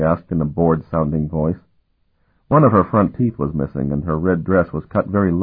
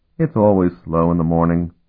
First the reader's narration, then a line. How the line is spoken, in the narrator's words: she sighed